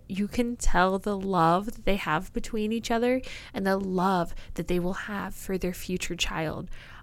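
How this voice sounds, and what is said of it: Choked up, emotional voice. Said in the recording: “I'm actually getting a little bit choked up”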